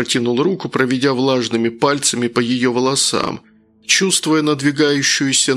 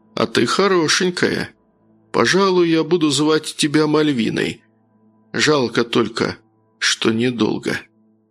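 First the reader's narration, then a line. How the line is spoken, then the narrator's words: Soft, smiling. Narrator (Russian): по-прежнему улыбаясь, мягко произнес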